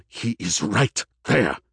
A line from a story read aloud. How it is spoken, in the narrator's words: snapped Iman